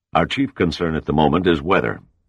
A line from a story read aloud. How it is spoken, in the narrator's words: said